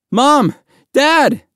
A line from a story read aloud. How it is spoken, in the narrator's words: Mahmoud cried